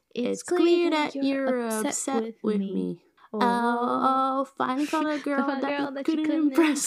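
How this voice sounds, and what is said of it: Sung imitation of a pop diva. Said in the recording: “our best Mariah Carey impression”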